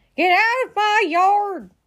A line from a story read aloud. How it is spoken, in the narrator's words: she said, shouted at Mercy